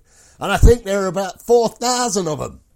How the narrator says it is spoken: I called out to Lieutenant Bromhead

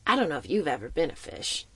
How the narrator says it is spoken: he chuckled

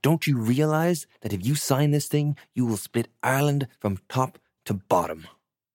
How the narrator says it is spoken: Brewer shouted back

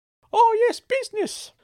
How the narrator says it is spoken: Uncle Claude chirped

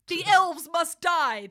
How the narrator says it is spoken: they shouted at Kris

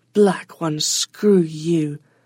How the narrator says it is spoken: Onali spat into the brightness

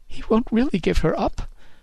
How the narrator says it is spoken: she sobbed

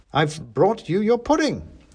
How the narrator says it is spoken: said

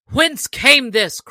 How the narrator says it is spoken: cried the sheriff in a mighty voice

